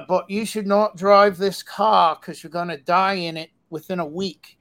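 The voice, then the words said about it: Poorly done put-on English accent. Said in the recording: “I'm really bad English accent”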